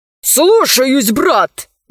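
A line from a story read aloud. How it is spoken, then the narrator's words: Exclamation. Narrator (Russian): воскликнул тот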